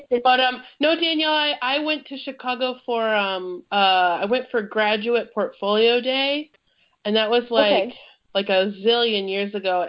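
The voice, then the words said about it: Congested voice from a cold. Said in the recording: “you just sound different over the phone ... I also have a little bit of a cold going on, so that it's making my radio voice not as sultry”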